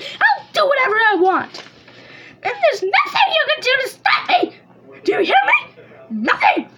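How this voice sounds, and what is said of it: Yelling angrily. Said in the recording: “I should probably stop yelling now... I really need to stop yelling”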